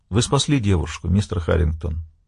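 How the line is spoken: Soft but convinced. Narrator (Russian): произнес мягко, но убежденно

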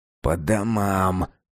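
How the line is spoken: Hissed. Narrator (Russian): прошипел Ревякин

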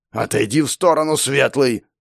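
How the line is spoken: Growled. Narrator (Russian): прорычал Ишармор

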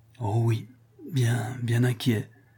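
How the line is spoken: Tearful stammer. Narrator (French): balbutia Rodolphe, dont le cœur se fondait en larmes

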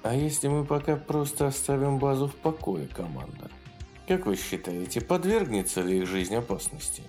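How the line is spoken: Quiet question. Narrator (Russian): негромко спросила

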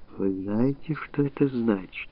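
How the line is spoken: Whisper. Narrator (Russian): Женщина прошептала

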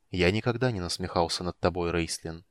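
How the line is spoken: Quiet. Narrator (Russian): тихо сказал Стурм

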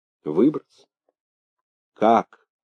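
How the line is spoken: Sad question. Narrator (Russian): печально спросил Быков

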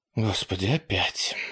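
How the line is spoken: Disgusted muttering. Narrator (Russian): с отвращением пробормотала Делла

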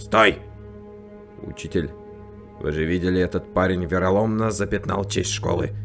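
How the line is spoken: Shouted. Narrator (Russian): Ан Хён До прокричал

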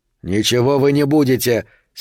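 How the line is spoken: Angry. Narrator (Russian): сердито сказал он

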